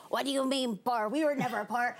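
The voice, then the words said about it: Imitated thick Mexican accent. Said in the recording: “with his thick Mexican accent”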